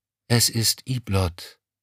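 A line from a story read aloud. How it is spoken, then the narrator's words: Plain. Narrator (German): sagte sie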